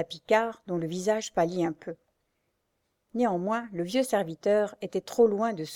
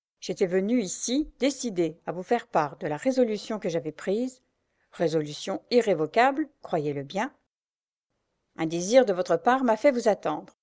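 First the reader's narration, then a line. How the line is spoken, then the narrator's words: Curt, jerky voice. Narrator (French): dit-il d'une voix brève et saccadée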